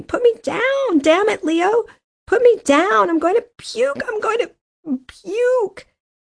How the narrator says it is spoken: She was screaming

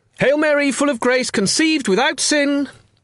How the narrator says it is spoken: Fermin called out enthusiastically

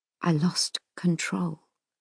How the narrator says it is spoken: he says quietly

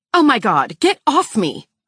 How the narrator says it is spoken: I shriek

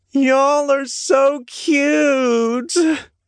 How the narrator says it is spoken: Scarlet wailed

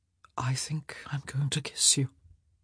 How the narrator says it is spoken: he whispered

